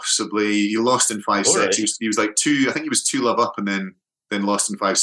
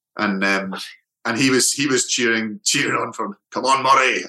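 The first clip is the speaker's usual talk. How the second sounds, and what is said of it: Imitates another person's voice. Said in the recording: “my Sean Connery impression”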